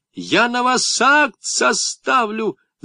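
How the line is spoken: Shouted. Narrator (Russian): закричала контролер

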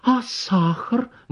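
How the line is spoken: Exclamation. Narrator (Russian): воскликнула Анна Николаевна

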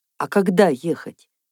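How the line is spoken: Hoarse question. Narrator (Russian): хрипло спросил доктор

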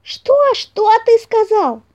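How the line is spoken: Shouting bunny. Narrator (Russian): закричал зайка-пекарь

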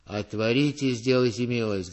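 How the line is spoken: Muffled bass behind gate. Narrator (Russian): говорил кто-то за воротами глухим басом

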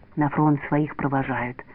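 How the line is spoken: Whisper. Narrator (Russian): прошептал Васек

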